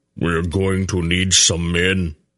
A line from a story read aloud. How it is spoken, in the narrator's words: Beric rumbled